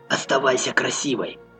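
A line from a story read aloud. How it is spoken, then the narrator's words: Muttered. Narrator (Russian): пробормотал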